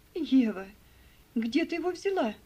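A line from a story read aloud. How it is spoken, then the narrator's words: Exclaiming. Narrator (Russian): воскликнула мисс Офелия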